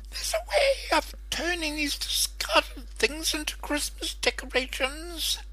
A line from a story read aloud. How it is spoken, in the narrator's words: cackled the traditional hideous witch